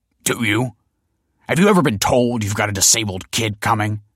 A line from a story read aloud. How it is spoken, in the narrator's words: snapped the father